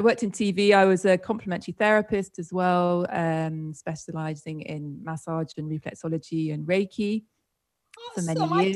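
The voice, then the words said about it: British accent. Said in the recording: “I'm from the UK, as you might have gathered from my strange accent.”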